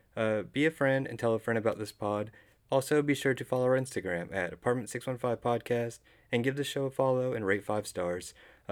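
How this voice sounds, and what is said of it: Talking very fast. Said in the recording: “talking really fast. I had like 37 energy drinks today”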